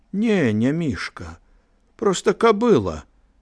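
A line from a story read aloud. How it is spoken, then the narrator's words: Calm reply. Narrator (Belarusian): адказаў Мікола спакойна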